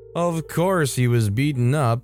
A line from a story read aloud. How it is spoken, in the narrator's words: his sister laughed when telling me